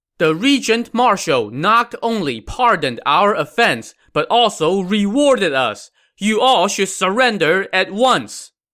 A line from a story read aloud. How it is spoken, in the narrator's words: shouting